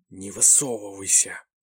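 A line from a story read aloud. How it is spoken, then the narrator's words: Angry whisper. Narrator (Russian): злобно прошептала Таха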